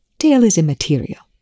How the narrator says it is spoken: Rush snapped

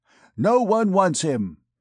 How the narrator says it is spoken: he exclaimed, imitating the accent of an auctioneer

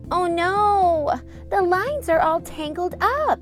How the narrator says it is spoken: Cammy groaned

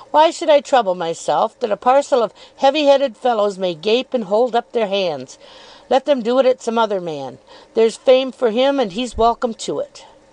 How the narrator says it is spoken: said Steerforth, laughing still more heartily

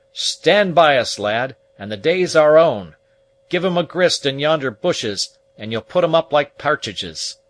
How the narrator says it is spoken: he called out to him with stentorian lungs

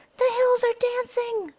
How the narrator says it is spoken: cried Nod in terror

